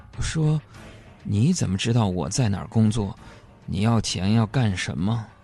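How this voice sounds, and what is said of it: Nervous, quiet voice. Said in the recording (Chinese): “我很紧张的小声问”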